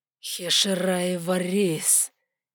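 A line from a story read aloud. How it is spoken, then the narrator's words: Dragon's low growl. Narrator (Russian): низко прорычал дракон цвета ночи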